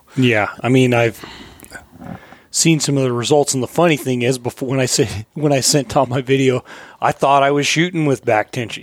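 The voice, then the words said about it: Hoarse, fading voice. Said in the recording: “if you can't tell, I'm losing my voice because Tom and I have just been going back and forth the whole time”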